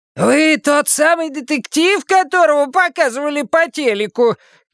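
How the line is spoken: Hoarse shout. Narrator (Russian): крикнула сиплым голосом

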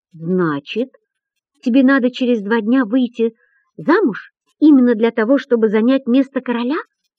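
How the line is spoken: Asked even more timidly. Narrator (Russian): еще более робко спрашивает он

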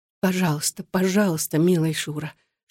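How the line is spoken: Whispering. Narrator (Russian): шептала она

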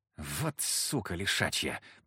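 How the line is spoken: Hoarse wheeze. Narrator (Russian): просипел Фока

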